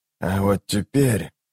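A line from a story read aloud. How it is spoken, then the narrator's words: Quiet. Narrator (Russian): тихо проговорил он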